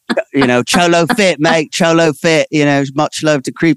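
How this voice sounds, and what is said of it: Bad put-on Australian accent. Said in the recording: “that's a terrible accent”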